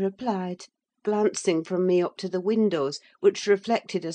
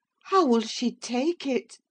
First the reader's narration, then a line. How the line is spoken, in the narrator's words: I exclaimed